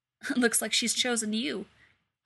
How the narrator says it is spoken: Elsa laughs

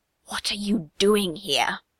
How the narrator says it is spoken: Mustang hisses

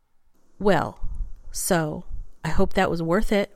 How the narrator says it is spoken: Rodney says sharply

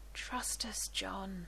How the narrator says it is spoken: she murmurs in his ear

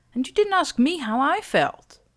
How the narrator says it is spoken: snaps

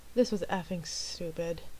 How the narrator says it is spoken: John muttered

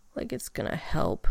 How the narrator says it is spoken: Rodney mumbled, his voice so quiet that he could barely even hear himself now

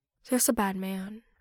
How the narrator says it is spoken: a child whispers

